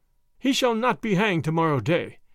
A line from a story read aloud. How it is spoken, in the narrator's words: cried Robin